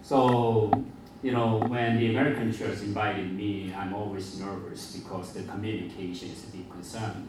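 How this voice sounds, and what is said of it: Mixed Filipino and Korean Asian accent. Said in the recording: “my accent is a mixture of the Filipino, Korean, Asian, and others”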